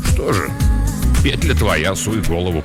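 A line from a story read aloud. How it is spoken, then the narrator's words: Grumbled. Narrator (Russian): буркнул он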